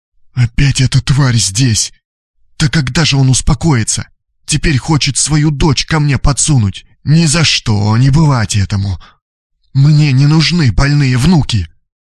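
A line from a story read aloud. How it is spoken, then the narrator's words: Loud whisper. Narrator (Russian): Дарья Антоновна громко прошептала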